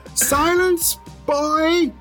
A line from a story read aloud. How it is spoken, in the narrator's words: She screams